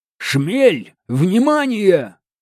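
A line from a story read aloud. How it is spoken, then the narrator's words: Shout. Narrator (Russian): крикнул он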